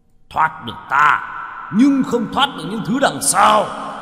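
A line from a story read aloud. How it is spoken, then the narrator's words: Furious roar. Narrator (Vietnamese): Thạch Cơ Hầu gầm lên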